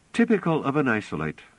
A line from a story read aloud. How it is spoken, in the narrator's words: said calmly